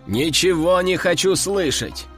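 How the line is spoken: Man shouting. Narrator (Russian): крикнул мужик

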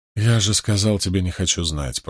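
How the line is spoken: Groaning. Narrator (Russian): простонал Мэтт

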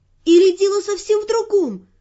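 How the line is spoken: Excited exclamation. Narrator (Russian): воодушевленно воскликнула я

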